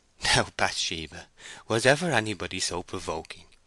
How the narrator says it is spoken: said, laughing

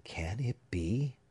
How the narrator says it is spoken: whispered Holgrave

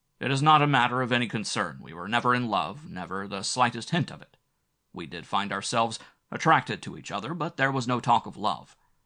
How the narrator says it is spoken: He added quickly

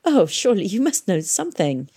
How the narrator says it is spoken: she laughed

